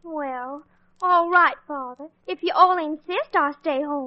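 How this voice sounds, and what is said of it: Exaggerated Southern accent. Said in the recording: “insipid southern accent”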